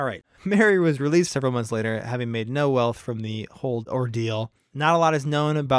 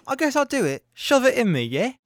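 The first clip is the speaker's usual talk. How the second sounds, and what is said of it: Put-on English accent. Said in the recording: “If you have an English accent, I apologize... I know you don't all sound like that.”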